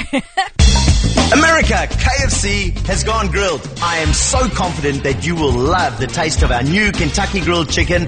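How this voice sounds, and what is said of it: Australian accent, male voice. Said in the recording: “What's the accent? ... It's an Australian dude.”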